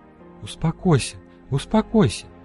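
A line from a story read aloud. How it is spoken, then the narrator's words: Whispering. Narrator (Russian): Продолжала шептать Фера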